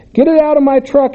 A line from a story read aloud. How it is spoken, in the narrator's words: hollered